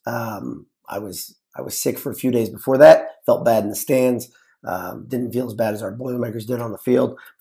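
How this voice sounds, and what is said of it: Weird, off-sounding voice. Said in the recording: “developed this weird voice thing where my voice just doesn't sound like me consistently ... I apologize for the way my voice sounds”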